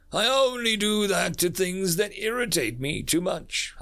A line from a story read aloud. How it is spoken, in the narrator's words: I chuckle